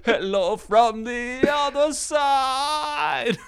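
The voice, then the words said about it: Imitates another person's singing voice. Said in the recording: “your impression”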